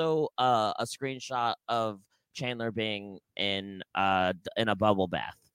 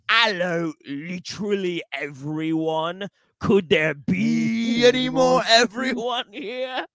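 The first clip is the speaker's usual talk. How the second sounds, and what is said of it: Put-on Cockney accent, sitcom character voice. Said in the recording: “in a Cockney accent as Chandler Bing”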